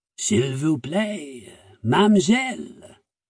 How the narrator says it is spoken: he said in a gravelly voice

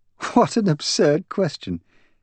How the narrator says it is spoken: She laughed, though I heard a certain amount of strain in her words

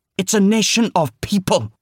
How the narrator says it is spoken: Robin snapped

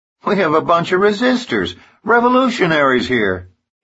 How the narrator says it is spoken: exclaims Jeff Landry

